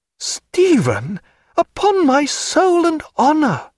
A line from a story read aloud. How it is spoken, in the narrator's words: she cried